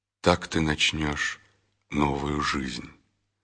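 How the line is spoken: Quiet. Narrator (Russian): Исаия тихо добавил

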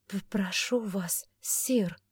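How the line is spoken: Pleading. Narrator (Russian): взмолилась Августа

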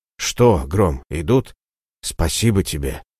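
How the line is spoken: Whispered. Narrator (Russian): прошептал Ратибор

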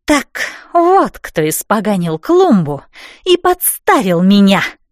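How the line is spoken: Hiss from behind. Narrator (Russian): зашипела за спиной Эссель

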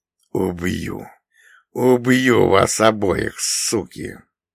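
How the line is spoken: Gritted-teeth threat. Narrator (Russian): Он сквозь зубы процедил

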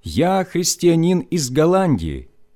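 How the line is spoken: Loud, in German. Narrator (Russian): набрав полную грудь воздуха, я громко сказал по-немецки

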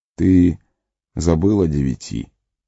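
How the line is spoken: Weary. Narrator (Russian): устало ответил Гэлдор

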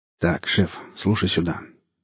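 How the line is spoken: Quiet speaking. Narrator (Russian): негромко говорил Гриф

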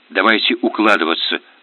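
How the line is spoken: Whispered. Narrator (Russian): шепотом сказал

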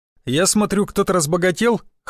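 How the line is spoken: Snorting. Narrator (Russian): хмыкнул Елизар

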